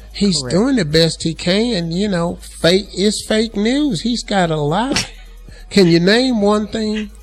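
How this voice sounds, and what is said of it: Put-on MAGA supporter accent. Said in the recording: “where's this accent coming from? ... MAGA ... accent.”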